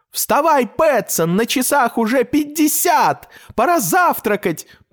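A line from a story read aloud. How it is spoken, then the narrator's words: Cat shouting. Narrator (Russian): прокричал кот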